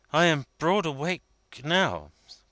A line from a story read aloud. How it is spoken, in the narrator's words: cried Vendale